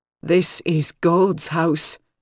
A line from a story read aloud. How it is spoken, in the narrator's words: Mother Serenity said in a reedy voice